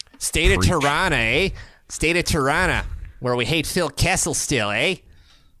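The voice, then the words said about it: Put-on Toronto accent. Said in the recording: “Love my Toronto accent now. I'm going to use it all the time.”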